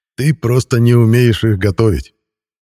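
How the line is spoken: Chuckling. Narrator (Russian): хохотнул я

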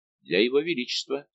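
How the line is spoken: Plain. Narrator (Russian): сказал он

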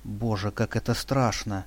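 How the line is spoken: Breathless whisper. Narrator (Russian): тяжело дыша прошептала Лиля

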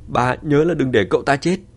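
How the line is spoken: Excited loud shout. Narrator (Vietnamese): Diệp Hoàng phấn khởi thét lớn

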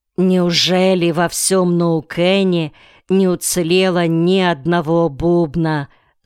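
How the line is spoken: Plain question. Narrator (Russian): спросил Рейдшип

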